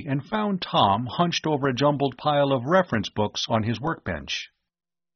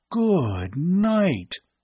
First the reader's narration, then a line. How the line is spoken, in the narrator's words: Bud gasped weakly